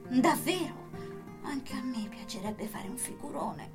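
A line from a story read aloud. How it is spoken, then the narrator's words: Murmured. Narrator (Italian): mormorò Sara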